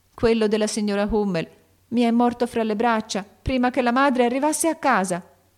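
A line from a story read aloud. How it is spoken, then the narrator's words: Crying out with a sob. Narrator (Italian): gridò Beth con un singhiozzo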